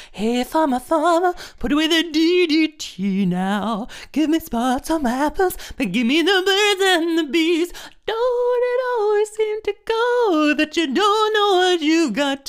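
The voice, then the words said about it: Imitates another person's voice, singing. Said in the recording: “my Joni Mitchell impression”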